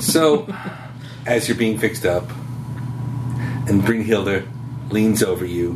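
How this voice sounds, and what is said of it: Usual voice. Nothing is said of it.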